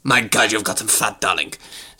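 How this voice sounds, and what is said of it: Edna Mode-style character voice. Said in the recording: “my impression is based on Edna Mode from The Incredibles ... with a touch of Zsa Zsa Gabor thrown in”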